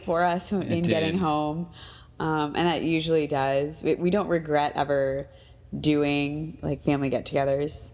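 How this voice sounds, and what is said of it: Congested voice from a cold. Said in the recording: “if you can't hear it in my voice, we are battling colds in the house”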